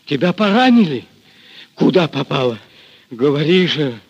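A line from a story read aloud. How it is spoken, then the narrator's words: Hoarse question. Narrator (Russian): хрипло спросил Григорий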